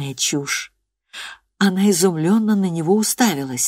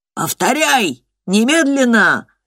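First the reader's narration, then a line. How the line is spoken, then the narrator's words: Shouting. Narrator (Russian): кричал директор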